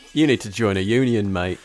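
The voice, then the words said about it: Put-on Northern English accent. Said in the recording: “Is this a late in the game accent switch? ... Are you Northern?”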